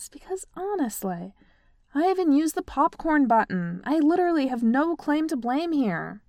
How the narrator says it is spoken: Styles whines

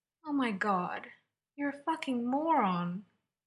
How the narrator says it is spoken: Styles groans

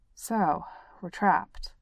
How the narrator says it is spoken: sighed Dory

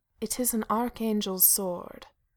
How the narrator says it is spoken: Cass said solemnly

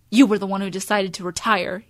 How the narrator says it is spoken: he snaps

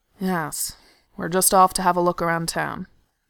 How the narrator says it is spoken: Thorin said flatly

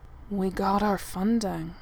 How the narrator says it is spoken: Eric says in an odd tone

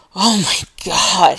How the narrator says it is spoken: gasped

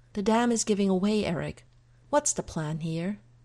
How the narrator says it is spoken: Shaw demands, wrenching against the bonds

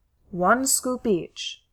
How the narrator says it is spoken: Jenny says sternly

